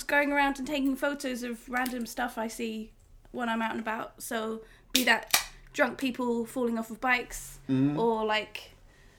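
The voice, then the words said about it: British accent. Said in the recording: “she's got an awesome accent that we all love... Terribly British accent... It's a very British accent.”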